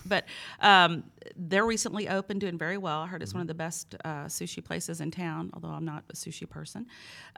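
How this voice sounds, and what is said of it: Thick accent. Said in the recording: “with my thick accent”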